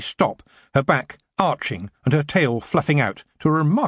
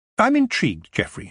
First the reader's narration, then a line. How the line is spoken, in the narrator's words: said